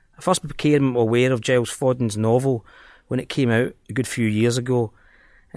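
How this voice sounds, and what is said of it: Scottish accent. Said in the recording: “as the title and my accent might give away”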